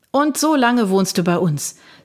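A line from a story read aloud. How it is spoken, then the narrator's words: Plain. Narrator (German): sagte Jacques Cartier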